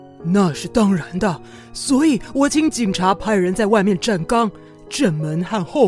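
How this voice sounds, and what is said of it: Usual voice. Nothing is said of it.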